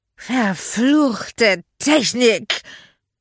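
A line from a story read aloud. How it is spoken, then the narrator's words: Drunken slurring. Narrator (German): lallte Magda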